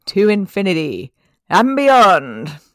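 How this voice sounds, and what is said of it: Buzz Lightyear impression. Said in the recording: “do you want to do a Buzz impression?”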